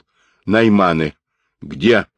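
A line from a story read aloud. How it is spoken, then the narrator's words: Shout. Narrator (Russian): крикнул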